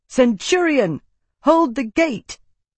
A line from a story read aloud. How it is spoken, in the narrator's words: barked